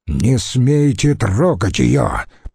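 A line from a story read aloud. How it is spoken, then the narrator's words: Growling. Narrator (Russian): прорычал Курион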